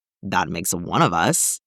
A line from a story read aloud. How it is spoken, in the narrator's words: Colt muttered